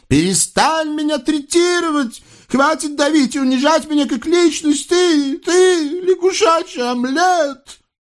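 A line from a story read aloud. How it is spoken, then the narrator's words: Hysterical shout. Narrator (Russian): да как закричит истерическим голосом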